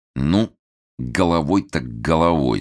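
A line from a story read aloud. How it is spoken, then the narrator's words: Sinister, through teeth. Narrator (Russian): зловеще процедил Толстов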